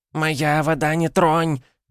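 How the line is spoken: Nasty squealing little voice. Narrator (Russian): взвизгнул мерзкий голосок

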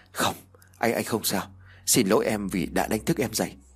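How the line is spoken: Nervous quiet reply. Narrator (Vietnamese): Khanh nuốt nước bọt rồi khẽ đáp

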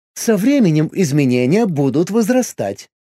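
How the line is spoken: Snide remark. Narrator (Russian): ехидно заметил миром

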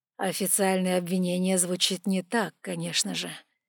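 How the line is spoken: Gentle. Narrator (Russian): мягко сказал

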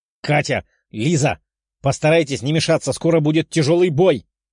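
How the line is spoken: Young man shouting. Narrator (Russian): прокричал парень

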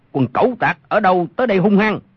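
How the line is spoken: Shout from darkness. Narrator (Vietnamese): Trong bóng tối có một người quát lên

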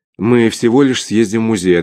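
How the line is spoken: Most sensible reasonable tone. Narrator (Russian): ответила леди Хелен самым благоразумным тоном на свете

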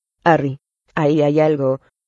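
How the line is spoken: Hoarse voice. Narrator (Spanish): dijo Ron con la voz ronca

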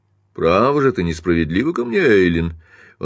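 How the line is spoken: Heartfelt, sincere tone. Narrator (Russian): Он произнес это с чувством, подкупающе искренним тоном

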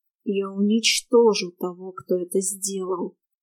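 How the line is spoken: Hissed. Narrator (Russian): прошипел Шерион

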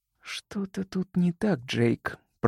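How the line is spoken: Slow, barely audible. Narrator (Russian): проговорила она медленно и еле слышно

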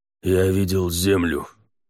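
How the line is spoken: Growled. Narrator (Russian): прорычал Халахель

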